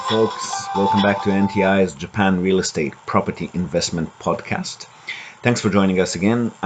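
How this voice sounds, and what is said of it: Deep-throated, strained sick voice. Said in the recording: “deep-throated, sexy drawl ... I've got a bit of a throat infection today ... late-night soft whisper”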